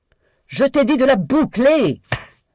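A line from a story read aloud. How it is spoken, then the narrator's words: Screamed. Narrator (French): hurla Daisy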